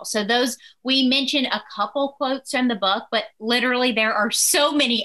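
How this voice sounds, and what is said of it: Southern American accent. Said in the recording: “Love that Southern accent. I could listen all day.”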